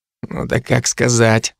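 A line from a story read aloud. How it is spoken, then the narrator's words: Grumbling mutter. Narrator (Russian): снова пробурчал Дарт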